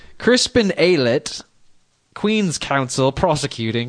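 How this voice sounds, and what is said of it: Put-on accent. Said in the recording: “Sorry, I had to do the accent for that”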